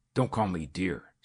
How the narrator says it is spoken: snarled her husband

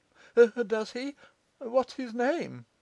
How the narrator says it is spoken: cried Pitman

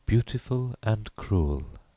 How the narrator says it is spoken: she repeated dreamily

